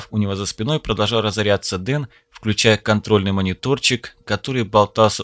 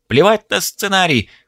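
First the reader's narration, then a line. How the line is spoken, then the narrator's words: Furious spluttering yell. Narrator (Russian): брызжа слюной заорал багровеющий режиссер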